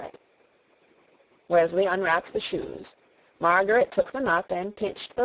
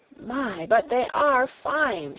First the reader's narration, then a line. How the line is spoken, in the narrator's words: she cried